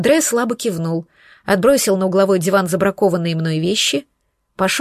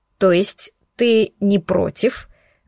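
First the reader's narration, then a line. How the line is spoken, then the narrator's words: Grim, through gritted teeth. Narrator (Russian): начала я мрачно, цедя сквозь зубы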